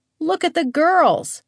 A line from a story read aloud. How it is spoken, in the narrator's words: the chief shouted